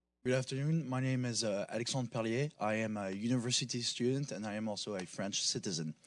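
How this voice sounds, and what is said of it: Foreign-accented English. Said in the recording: “We never would have guessed. ... I love your accent. I love your accent.”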